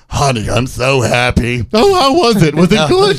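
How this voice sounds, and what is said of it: Imitates another person's voice. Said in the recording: “doing a Harvey Firestein impression”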